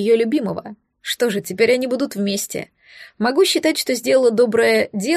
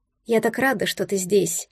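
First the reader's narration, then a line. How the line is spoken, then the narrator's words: Quiet confession. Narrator (Russian): призналась я тихо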